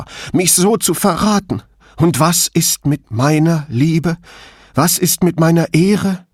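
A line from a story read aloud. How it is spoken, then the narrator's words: Sobbing. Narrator (German): schluchzte Clorinda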